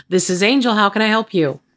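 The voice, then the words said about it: Polished customer service phone voice. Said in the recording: “she's got that customer service voice”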